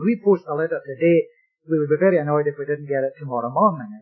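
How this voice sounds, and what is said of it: Scottish accent. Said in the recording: “I come from Scotland. I know that my accent doesn't betray me. I must sound like a Canadian by this time, surely. Nevertheless, no.”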